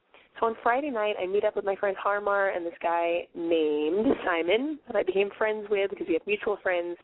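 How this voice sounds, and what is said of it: Sick, unusual-sounding voice. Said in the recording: “I'm clearly sick ... my voice sounds a little bit unfamiliar to you guys”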